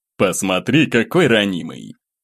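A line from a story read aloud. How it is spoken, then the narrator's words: Displeased snort. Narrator (Russian): Недовольно фыркнул Глеб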